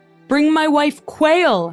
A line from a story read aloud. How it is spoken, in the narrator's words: Henry bellowed